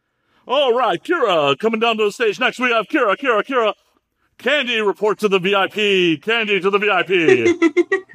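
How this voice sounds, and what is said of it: Strip club DJ announcer voice. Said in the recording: “strip club DJ voice”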